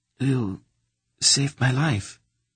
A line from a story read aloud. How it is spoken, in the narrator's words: she said to him in a rich, throaty voice